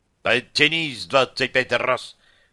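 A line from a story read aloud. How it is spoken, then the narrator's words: Barked command. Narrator (Russian): рявкнул лейтенант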